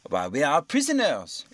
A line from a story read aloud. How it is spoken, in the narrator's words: exclaimed Passepartout